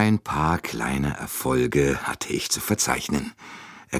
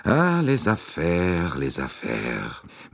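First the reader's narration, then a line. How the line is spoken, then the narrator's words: Sighed. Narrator (German): Monsieur Bouc seufzte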